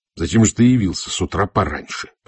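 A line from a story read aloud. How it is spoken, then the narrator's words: Growl. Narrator (Russian): прорычал я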